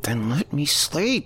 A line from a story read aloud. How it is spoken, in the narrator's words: She groaned